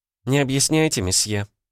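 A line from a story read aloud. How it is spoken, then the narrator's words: Gentle, smiling. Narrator (Russian): мягко улыбнулась сотрудница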